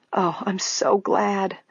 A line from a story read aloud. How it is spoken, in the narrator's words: Grace murmured